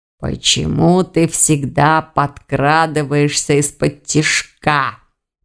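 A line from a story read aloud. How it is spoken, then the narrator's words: Angry hiss. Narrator (Russian): прошипел Аристакес, гневно сверкая глазами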